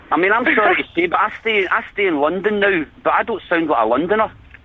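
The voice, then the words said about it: Scottish accent. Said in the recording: “I can hear that Scottish accent right away.”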